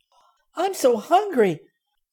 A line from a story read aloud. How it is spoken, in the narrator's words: said Benny excitedly